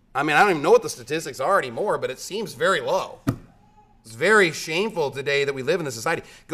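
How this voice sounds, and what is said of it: Yelling, loud preaching. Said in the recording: “when are you going to stop yelling?”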